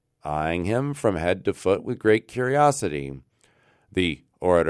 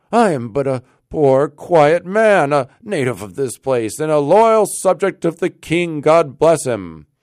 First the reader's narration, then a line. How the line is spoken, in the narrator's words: cried Rip, somewhat dismayed